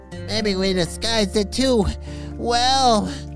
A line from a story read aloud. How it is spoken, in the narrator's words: Turbo whined